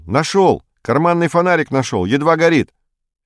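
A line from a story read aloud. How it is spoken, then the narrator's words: Shout. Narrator (Russian): Строкулев крикнул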